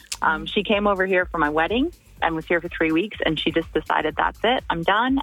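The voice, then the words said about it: Canadian accent. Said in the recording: “if you can't tell from my voice, I'm from Canada”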